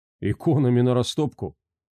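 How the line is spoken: Grim smirk. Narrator (Russian): мрачно усмехнулся Флегетон

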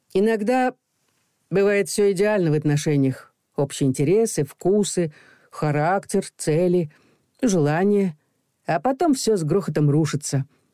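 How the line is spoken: Sad remark. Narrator (Russian): печально заметил Макар

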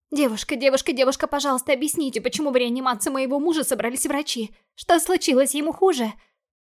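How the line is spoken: Anxious rapid chatter. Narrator (Russian): Взволнованно затараторила я, боясь, что что-то могло пойти не так

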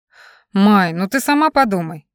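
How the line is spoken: Sighed. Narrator (Russian): Райт вздохнул

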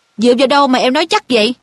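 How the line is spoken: Irritated question. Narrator (Vietnamese): Wood bực bội hỏi lại

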